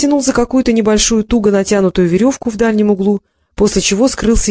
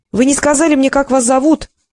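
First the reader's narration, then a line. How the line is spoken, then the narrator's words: Shout into dark shaft. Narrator (Russian): крикнула она в темноту шахты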